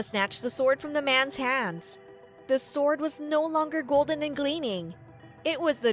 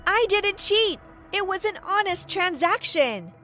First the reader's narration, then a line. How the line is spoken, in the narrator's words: I shouted back